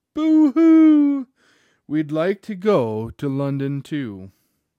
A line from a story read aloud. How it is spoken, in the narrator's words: The little girls all cried